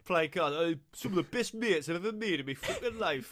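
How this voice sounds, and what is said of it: A convincing put-on accent. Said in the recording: “Good accent, that. That was a good accent.”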